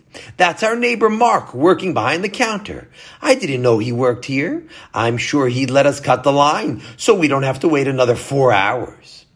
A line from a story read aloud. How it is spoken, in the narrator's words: Basia exclaimed